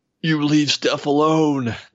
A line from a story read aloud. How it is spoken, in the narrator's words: the fat clone bellowed